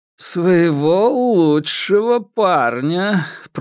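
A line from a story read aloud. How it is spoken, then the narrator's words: Drawl, then laughter. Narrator (Russian): протянул Соломон и рассмеялся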